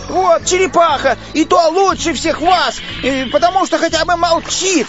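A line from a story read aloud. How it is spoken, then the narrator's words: Shout. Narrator (Russian): крикнул он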